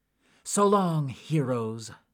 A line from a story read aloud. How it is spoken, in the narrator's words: cried out